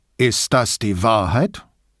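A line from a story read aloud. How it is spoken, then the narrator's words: Theatrical deep menacing voice. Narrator (German): fragte er mit theatralisch tiefer Stimme, die durchaus bedrohlich klang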